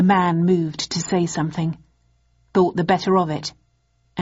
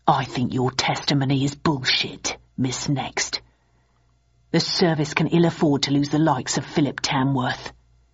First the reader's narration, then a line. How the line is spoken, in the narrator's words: waited until his colleagues were out of earshot, then whispered to me